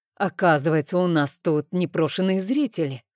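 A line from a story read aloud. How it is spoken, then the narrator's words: Irritated. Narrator (Russian): раздраженно произнес Рейн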